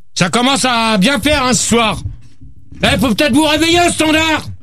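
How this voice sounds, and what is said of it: Shouting. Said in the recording (French): “arrête de crier, toi!”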